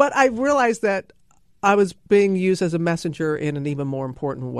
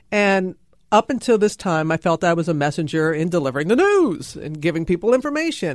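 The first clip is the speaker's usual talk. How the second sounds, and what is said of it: News anchor style voice. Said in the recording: “your news voice”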